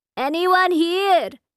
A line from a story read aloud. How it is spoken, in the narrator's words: hollers